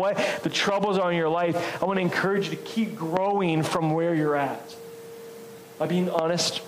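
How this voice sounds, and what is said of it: Usual voice. Nothing is said of it.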